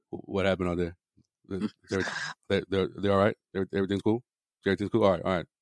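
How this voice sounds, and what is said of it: Imitates another person's voice. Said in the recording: “E-Man impersonation”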